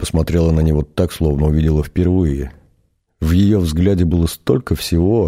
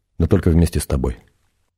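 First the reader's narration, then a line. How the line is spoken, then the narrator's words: Very calm, matter-of-fact. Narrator (Russian): Очень спокойно, будто о чем-то вполне обыденном, сказал он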